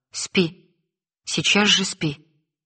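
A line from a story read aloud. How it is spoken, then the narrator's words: Very stern. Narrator (Russian): сказала я, насколько могла строго ... еще строже сказала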